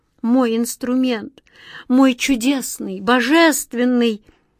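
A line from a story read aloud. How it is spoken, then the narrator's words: Muffled grieving moan. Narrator (Russian): Закрыв лицо руками, горестно простонал Мираклюс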